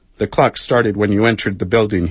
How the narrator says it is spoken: he replied

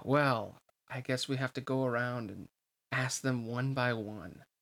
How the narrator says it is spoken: Hainer said with a sigh

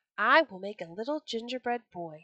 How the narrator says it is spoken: she said

